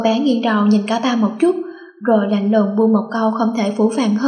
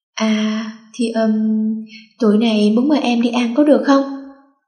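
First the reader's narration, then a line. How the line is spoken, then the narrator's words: Hesitant, halting. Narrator (Vietnamese): Cả ba không ngờ thái độ của cô bé đó là như vậy nên ngập ngừng một lúc lâu rồi mới nói ra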